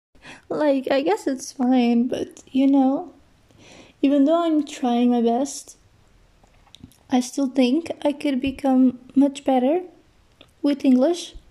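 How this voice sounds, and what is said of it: Non-native English accent. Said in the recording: “I'm very sorry for my accent. ... I can just hear my accent, and it's really like annoying”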